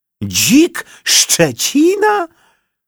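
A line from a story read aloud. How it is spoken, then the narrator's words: Old man and boy in unison. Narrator (Polish): Dziadek i wnuczek krzyknęli jednym głosem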